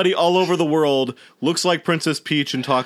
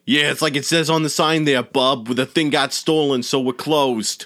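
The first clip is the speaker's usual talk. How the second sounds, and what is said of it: Put-on Brooklyn accent. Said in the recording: “talks in a Brooklyn accent”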